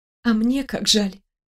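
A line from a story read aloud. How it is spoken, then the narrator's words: Whisper. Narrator (Russian): Прошептала я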